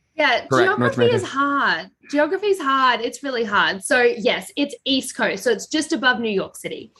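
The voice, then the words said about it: Australian accent. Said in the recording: “I do have an Australian accent”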